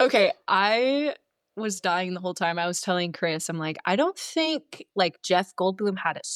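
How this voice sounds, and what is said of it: Usual voice. Nothing is said of it.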